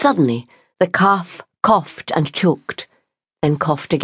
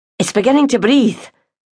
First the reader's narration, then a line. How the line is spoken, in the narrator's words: Ryan exclaimed in excitement